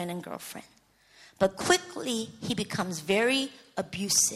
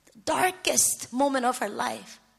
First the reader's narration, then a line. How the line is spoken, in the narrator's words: she cries out